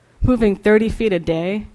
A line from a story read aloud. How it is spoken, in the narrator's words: Red Man sneered